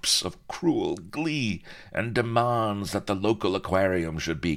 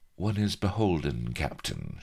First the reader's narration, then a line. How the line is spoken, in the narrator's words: she purred